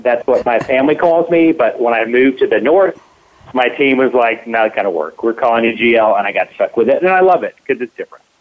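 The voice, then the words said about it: Southern US accent. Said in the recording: “If you can't tell by my accent, I'm from the South”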